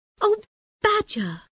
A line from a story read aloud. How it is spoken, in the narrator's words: cried the Rat